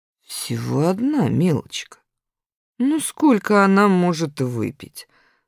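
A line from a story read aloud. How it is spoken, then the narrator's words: Calm reply. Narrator (Russian): спокойно ответила Раневская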